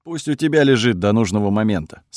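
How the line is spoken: Calm. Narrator (Russian): спокойно ответил Кириус

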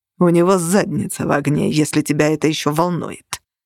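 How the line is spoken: Icy reply. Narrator (Russian): ледяным тоном ответствовал нигер

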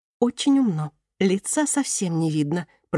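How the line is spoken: Whispered. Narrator (Russian): прошептала Антея

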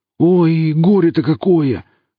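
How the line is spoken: Exclaiming. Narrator (Russian): воскликнул Велес

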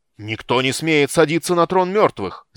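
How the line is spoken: Shouted. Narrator (Russian): закричал Гнейс

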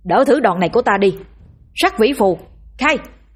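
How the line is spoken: Straining, very loud shout. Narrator (Vietnamese): Bổ gồng sức hét thật to

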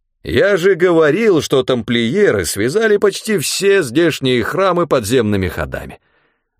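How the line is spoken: Triumphant priest. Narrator (Russian): торжествующим тоном сообщил священник

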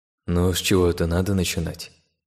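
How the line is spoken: Heavy sigh, to himself. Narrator (Russian): Тяжело вздохнув, сказал он про себя

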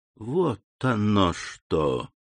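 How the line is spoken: Quiet astonished exclamation. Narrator (Russian): негромко воскликнул Монте-Кристо, изумленно

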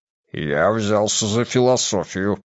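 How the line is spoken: Embarrassed giant's grumble. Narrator (Russian): пробурчал великан, сам донельзя засмущенный таким признанием

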